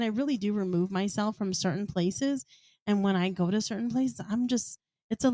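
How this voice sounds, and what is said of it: Usual voice. Nothing is said of it.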